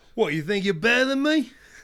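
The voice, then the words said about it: Put-on unidentifiable accent. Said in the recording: “Don't even know what accent that was.”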